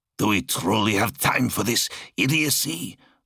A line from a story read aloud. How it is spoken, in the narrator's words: Zarl grunted